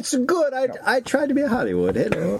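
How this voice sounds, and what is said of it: Put-on foreign accent, broken English. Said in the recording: “I don't know what the accent is now.”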